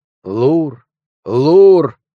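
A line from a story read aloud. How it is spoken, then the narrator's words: Small figure's exclamation. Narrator (Russian): Маленькая фигурка в капюшоне воскликнула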